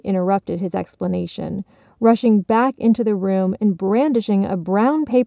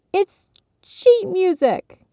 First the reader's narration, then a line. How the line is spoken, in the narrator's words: Rob exclaimed ... with such joy